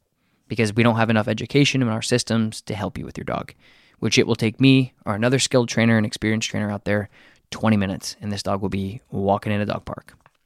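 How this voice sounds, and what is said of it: Frustrated, exasperated speaking voice. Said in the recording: “You can probably hear the frustration in my voice”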